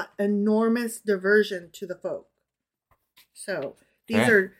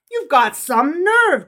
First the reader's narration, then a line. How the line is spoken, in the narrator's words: cried the rich man angrily